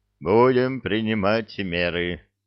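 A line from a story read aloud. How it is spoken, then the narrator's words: Sighing. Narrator (Russian): вздохнул он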